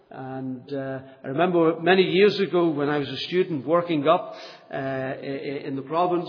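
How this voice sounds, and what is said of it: Non-Northern Irish accent. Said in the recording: “particularly with my accent. I'm a real stranger to you because I have got a strange accent in that I'm not from Northern Ireland.”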